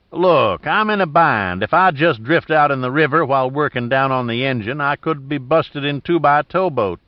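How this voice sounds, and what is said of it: Backcountry accent. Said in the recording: “Giordino fell back into his backcountry accent.”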